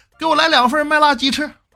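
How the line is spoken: Older woman shouting. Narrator (Chinese): 一个大妈跟服务员喊

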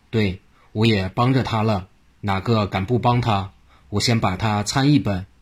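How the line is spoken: Laughing. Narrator (Chinese): 黄国华闻言一笑道

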